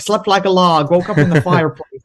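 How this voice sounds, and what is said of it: Imitates another person's voice. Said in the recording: “That was actually a good impersonation there.”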